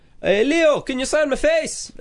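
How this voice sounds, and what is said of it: Passable put-on Scottish accent. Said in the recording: “Can you do that in a Scottish accent? ... That was all right. ... Yeah, it wasn't bad.”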